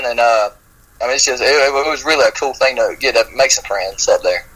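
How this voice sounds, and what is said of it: Noticeable regional accent. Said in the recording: “he's so cute, and that accent.”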